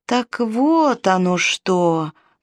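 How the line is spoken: Drawn-out drawl. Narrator (Russian): протянул Мардоний

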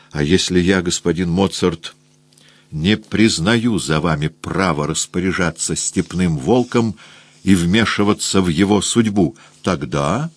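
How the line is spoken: Quiet question through clenched teeth. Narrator (Russian): Я тихо сквозь сжатые зубы спросил

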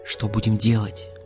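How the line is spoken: Whisper. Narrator (Russian): прошептал Олег

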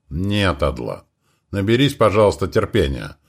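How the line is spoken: Very calm. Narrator (Russian): ответил он максимально спокойно

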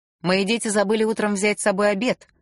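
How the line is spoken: Loud declaration. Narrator (Russian): громко заявил он

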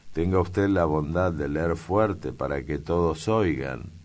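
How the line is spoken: Plain. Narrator (Spanish): dijo Amalia

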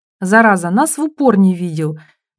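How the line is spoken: Grumbling. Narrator (Russian): ворчала копипаста

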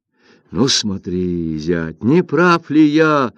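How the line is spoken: Exclamation. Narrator (Russian): воскликнул Линь Джиян

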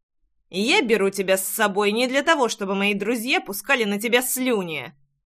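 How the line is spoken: Menacing growl. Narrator (Russian): Угрожающе рыкнул парень

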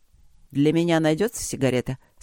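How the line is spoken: Calm question. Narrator (Russian): спросил барон Альфред спокойно

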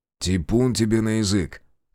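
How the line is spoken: Amused snort. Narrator (Russian): хмыкнул

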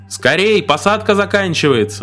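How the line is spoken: Loud shout. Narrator (Russian): громко закричал проводник

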